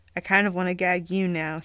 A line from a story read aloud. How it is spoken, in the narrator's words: Sam grumbled, expression serious